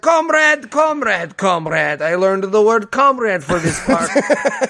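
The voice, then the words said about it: Exaggerated Russian accent. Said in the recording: “he's Russian... Way too Russian, dude”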